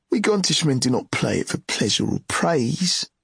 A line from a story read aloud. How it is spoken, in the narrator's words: Ged answered haughtily